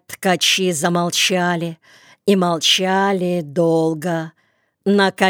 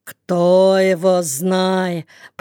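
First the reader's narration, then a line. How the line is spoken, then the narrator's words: Drawling. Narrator (Russian): протянул Никита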